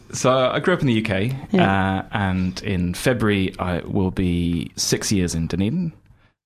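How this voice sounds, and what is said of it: British accent with New Zealand influence. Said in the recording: “I can hear by your accent that you've almost fully Kiwi-ized your vernacular.”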